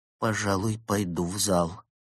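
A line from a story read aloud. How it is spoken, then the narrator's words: Gasping, muffled. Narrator (Russian): судорожно вздохнул и глухо произнес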